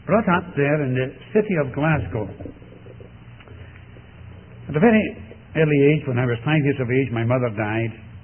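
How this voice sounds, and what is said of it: Scottish Glasgow accent, Scots burr. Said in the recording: “I was brought up in Scotland ... it's actually what's called a Scots burr. My Scots burr betrays me.”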